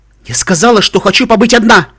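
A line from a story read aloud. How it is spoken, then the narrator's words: Shout through door. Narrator (Russian): крикнула она из-за двери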